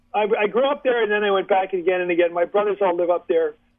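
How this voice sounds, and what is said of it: Philadelphia accent. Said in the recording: “you've got him with a Philly accent, so you can recognize my voice ... I grew up enough to catch the accent.”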